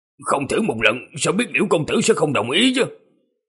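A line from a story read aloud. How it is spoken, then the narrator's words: Muttering. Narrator (Vietnamese): Bạch lão nhị lẩm bẩm nói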